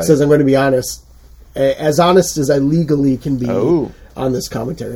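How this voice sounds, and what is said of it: Congested voice that cracks. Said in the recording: “Forgive my voice. ... I'm getting over a sinus infection. So if I crack more than usual, that's why.”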